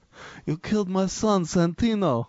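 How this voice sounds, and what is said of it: Nasal Godfather-style gangster voice. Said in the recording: “my Godfather impression ... That's my bad impression ... No, that was pretty good. You even had the nasally thing going ... You sounded like Vinnie Barbarino”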